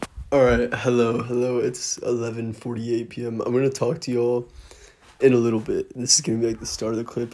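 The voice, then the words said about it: Strained, partly lost voice. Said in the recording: “I like lost my voice today. It sounds different. ... It just sounds really fucking weird to me, my voice.”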